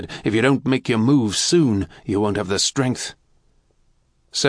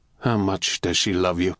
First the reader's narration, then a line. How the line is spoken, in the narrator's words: Galen asked quietly